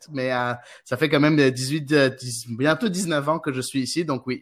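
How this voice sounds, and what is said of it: Strong Québécois French accent. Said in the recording (French): “comme les gens l'auront deviné à ton accent, tu, tu viens du Québec ... j'ai un gros accent québécois”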